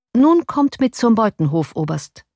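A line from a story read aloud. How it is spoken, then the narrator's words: Plain. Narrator (German): sagte er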